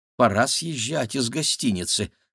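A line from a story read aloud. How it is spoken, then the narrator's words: Muttered. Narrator (Russian): пробормотал Максим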